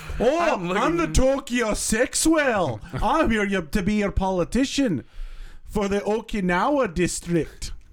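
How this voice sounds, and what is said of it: Put-on Scottish accent, Mike Myers-like. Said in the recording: “Oh, Mike Myers is back. ... that accent was actually a little bit more accurate ... No, that was Scottish again.”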